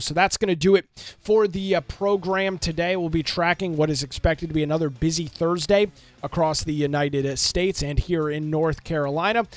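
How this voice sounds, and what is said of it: Slightly hoarse voice. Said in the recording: “I sound a little hoarse, a little under the weather over the last couple of days, trying to save as much of my voice as possible”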